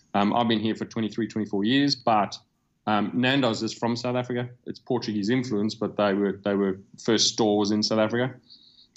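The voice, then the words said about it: Slight lingering foreign accent. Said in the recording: “As you can hear, I've probably got a little bit of an accent still.”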